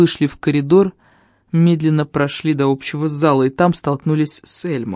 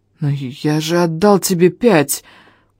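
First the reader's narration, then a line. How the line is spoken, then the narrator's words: Hoarse hateful wheeze. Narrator (Russian): Просипел я, с ненавистью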